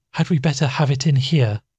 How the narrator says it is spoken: asked Rebecca weakly

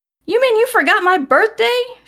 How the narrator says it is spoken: She yelled

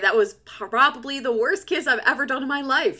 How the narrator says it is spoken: she laughs

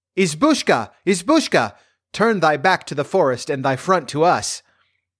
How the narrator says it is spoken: With their shrill, childish voices, they called out loud

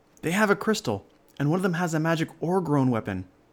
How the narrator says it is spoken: yelled

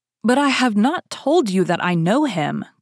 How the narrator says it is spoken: cried Bonacieux in despair

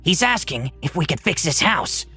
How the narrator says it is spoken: Malcott whispered

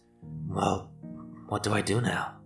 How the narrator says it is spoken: she asked, with a rasp of weakness in her voice

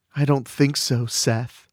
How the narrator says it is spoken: she purrs

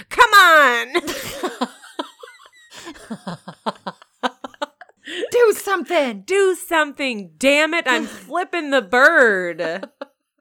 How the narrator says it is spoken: viciously flipping the bird at the boxes and yelling

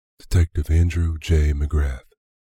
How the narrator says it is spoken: says stiffly

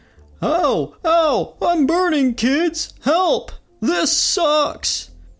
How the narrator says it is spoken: Barney's yelling

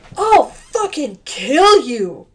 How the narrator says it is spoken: Christian Bale shouted

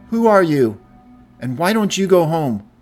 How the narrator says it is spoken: He yelled

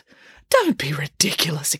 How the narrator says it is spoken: exclaimed Boris

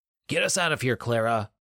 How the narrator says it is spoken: William yelled

